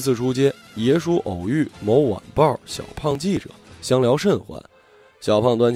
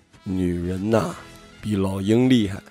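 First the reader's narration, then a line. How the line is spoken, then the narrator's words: Slow, leisurely sigh. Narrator (Chinese): 耶稣只悠悠的叹气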